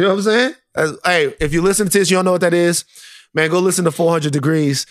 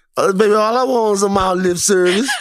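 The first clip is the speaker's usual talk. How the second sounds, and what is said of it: Put-on Southern Louisiana accent. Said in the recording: “Why don't you have a Southern Louisiana accent? ... when you tried to imitate Juvie.”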